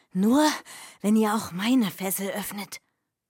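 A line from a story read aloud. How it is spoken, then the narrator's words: Hoarse whisper. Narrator (German): flüsterte der Prinz heiser zurück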